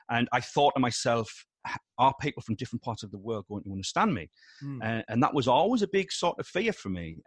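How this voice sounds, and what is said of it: Very strong regional accent. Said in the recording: “my accent's very strong ... I was always aware of my accent being very strong”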